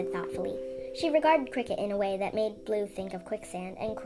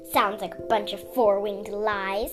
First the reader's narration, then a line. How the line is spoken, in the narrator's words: Sundew spat